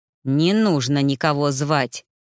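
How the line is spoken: Through clenched teeth. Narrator (Russian): процедил он

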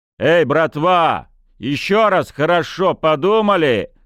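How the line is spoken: Shouting. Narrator (Russian): крикнул Некрасов

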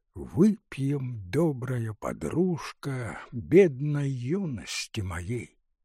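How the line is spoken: Soft singing. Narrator (Russian): негромко пропел

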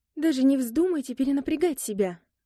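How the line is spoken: Woman exclaiming. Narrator (Russian): воскликнула незнакомка

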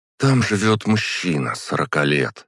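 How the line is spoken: Sighing. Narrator (Russian): вздохнула она

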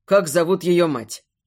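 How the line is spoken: Sharp interruption. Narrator (Russian): Резко перебиваю

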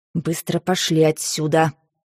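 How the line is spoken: Hissing. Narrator (Russian): прошипела она Зарецкому

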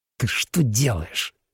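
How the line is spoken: Angry hiss. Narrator (Russian): сердито прошипел Фауст

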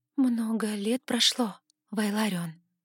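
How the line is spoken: Quiet. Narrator (Russian): тихо сказала я

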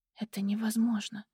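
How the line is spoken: Whisper. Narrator (Russian): прошептала я

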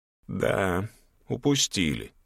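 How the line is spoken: Quiet agreement. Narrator (Russian): тихо согласился Гелиен

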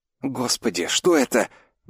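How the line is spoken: Trembling whisper. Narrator (Russian): дрожащим голосом прошептал Олег

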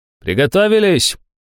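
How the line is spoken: Shout. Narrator (Russian): крикнул идущий впереди Иванов

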